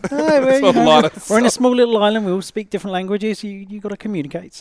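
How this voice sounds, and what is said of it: British accent. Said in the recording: “we've got a Brit on the show ... this is the accent you will be hearing the whole time”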